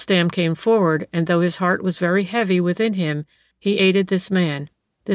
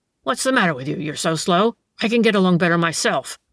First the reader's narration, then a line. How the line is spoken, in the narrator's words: growled the tramp